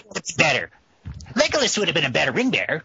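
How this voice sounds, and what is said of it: Mocking voice of forum commenters. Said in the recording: “my impression of the threads of people who won't listen to this podcast”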